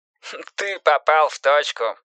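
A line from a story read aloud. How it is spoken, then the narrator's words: Laughing. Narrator (Russian): засмеялся детектив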